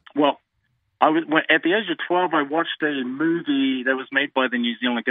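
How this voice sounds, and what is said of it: New Zealand accent. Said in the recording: “New Zealand or Australia... I can just hear your accent.”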